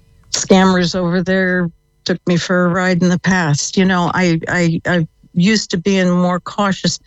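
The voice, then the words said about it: American accent. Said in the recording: “If you can tell from the accent, yeah. I came from the States.”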